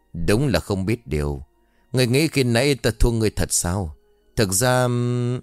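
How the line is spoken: Sighing. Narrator (Vietnamese): Lão Bân thở dài nói

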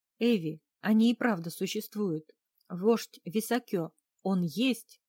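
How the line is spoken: Excited exclamation. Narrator (Russian): воскликнул мужчина

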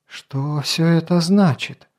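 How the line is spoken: Shaky, faint voice. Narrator (Russian): нетвердым голосом, словно в полуобмороке, проговорила Лития

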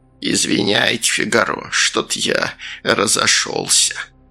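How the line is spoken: Creaky voice. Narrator (Russian): Сальдо проскрипел

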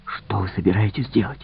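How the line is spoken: Whispered. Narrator (Russian): шепнул

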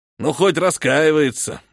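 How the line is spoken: Hunter grumbling then barking. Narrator (Russian): буркнул охотник и рявкнул

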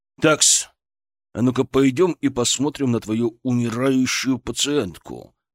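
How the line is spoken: Growl through clenched teeth. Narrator (Russian): сжав зубы, прорычал Шаповалов

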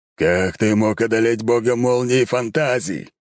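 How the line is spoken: Growling. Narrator (Russian): прорычал кто-то

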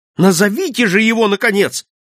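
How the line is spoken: Impatient exclamation. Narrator (Russian): воскликнул я, выведенный из терпения его медлительностью

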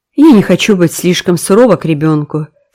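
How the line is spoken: Plain. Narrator (Russian): сказала Марила

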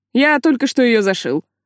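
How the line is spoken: Too loud speech. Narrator (Russian): слишком громко произнес Сайлос

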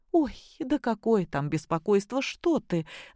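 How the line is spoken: Laughing. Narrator (Russian): засмеялась Любовь Сергеевна

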